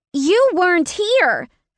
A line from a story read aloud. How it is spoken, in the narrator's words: Finn shouted